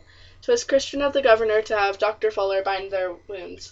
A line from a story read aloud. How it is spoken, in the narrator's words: Stephen remarked